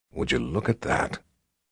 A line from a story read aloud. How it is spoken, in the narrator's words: John Rock said in a low voice